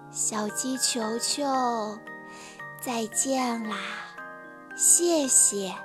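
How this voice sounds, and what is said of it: Weak, faint voice. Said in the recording (Chinese): “向日葵用微弱的声音说”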